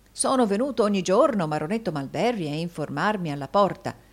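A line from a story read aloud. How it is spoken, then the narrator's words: Plain. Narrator (Italian): disse Rodolfo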